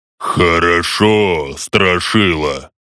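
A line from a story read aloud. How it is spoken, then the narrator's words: Deep bass voice. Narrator (Russian): Пробасил орк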